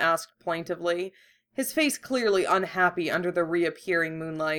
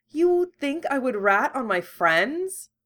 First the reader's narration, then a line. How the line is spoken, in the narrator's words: Hermione said sweetly